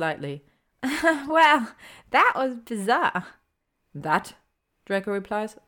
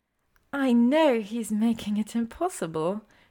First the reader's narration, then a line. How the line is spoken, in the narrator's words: she says in an overly sweet tone